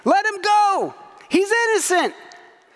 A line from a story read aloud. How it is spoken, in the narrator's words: Perhaps they were shouting